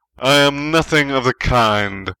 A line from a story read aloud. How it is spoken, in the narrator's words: Snape roared